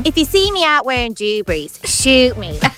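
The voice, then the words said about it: Imitates another person's voice. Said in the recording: “do your best impression of Joanne McNally ... Very good.”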